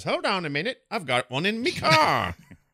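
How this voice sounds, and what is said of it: Unconvincing attempt at British accent. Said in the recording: “I don't know why I'm doing that voice. ... The accent you were doing wasn't really British”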